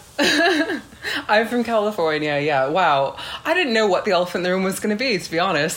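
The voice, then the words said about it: Californian American accent. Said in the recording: “This isn't an English accent you've got, so you're from California?”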